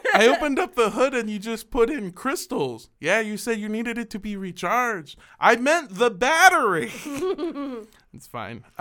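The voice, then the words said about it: Imitates another person's accent. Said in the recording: “I'm just doing my dad's accent too.”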